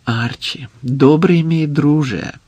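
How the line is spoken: Soft, heartfelt. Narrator (Ukrainian): сказав Самад м'яким задушевним голосом

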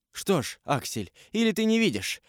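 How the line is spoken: Sharp cry. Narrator (Russian): вскрикнул он

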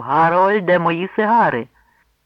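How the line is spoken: Dwarf's thunderous shout. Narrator (Ukrainian): гладкий і лисий карлик громовим голосом гукнув

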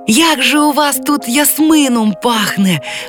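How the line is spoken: Ringing childlike exclamation. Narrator (Ukrainian): вигукнула вона дзвінким дитячим голосом

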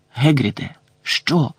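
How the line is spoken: Hissing. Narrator (Ukrainian): просичав Гегрід

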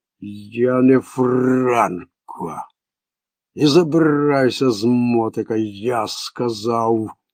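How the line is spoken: Sighing. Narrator (Ukrainian): Пляцик зітхнув

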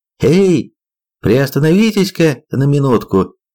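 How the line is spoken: Cheerful call. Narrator (Russian): весело зовет

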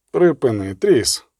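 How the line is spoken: Quiet moan. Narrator (Ukrainian): тихо простогнав Геральт

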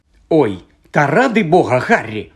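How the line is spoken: Angry retort. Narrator (Ukrainian): сердито озвалася Герміона

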